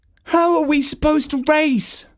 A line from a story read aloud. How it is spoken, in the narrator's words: moaned Prancer